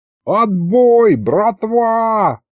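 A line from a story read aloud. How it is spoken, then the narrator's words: Yelled. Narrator (Russian): заорал Аристофан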